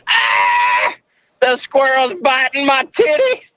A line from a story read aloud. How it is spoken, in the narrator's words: Screams